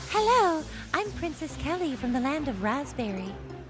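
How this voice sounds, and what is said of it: Princess character voice. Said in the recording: “do your princess voice ... That's very, very good.”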